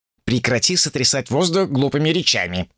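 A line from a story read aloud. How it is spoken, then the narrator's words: Displeased grumble. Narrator (Russian): недовольно проворчал Джубадзе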